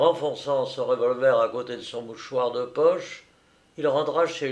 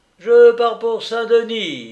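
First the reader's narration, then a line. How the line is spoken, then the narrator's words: Ringing announcement. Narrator (French): annonça-t-il d'une voix éclatante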